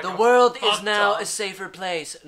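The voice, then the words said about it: Imitates another person's voice. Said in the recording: “Donald Trump just sounds like ... that Donald Trump impression”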